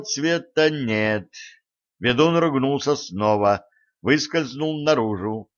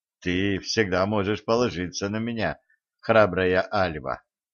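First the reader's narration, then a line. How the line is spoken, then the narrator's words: Smiling. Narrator (Russian): Улыбнулся ей Середин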